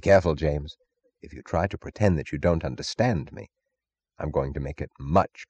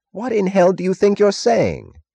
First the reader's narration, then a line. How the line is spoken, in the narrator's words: Taggart cried furiously